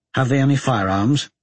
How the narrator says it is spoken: said I

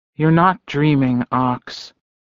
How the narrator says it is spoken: Elizabeth said quietly

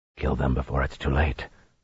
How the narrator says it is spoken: Luz Theron murmured

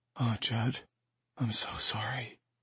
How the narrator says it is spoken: whispered

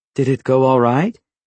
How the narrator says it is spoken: she asked in a slightly worried tone

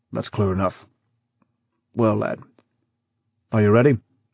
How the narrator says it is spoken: he said gruffly

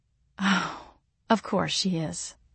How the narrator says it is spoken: I groaned

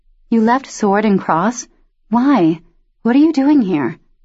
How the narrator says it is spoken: her voice quaked

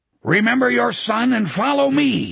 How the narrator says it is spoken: Sloat roared

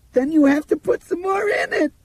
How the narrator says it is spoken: Dinah screamed shrilly at him

